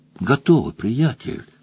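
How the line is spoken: Whisper. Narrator (Russian): прошептал он

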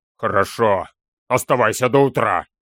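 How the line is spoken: Displeased grumble. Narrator (Russian): недовольно проворчал Вингетер

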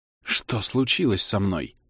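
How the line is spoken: Frightened whisper. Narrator (Russian): спросил он испуганным шепотом

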